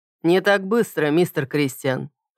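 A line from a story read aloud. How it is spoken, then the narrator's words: Calm declaration. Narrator (Russian): спокойно глядя мне в глаза, заявил Керри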